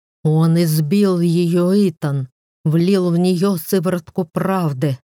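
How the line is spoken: Uncontrolled emotional growl. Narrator (Russian): прорычал, не в состоянии контролировать эмоции

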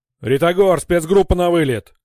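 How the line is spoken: Shouted over radio. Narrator (Russian): крикнул по связи

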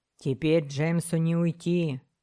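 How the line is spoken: Grim muttering. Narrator (Russian): мрачно буркнул капитан

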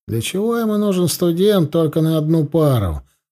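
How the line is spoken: Mild grumbling. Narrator (Russian): профессор, который вначале немного ворчал, мол

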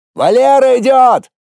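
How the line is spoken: Shout. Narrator (Russian): крикнул наблюдающий

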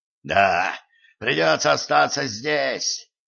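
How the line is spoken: Hoarse rasp. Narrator (Russian): прохрипел он

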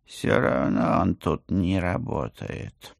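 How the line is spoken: Gloomy cat voice. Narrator (Russian): мрачно добавил кот

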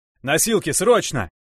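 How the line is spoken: Shout. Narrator (Russian): закричал я

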